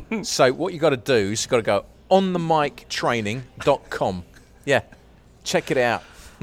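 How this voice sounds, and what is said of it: Put-on Cockney accent. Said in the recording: “in a Cockney accent”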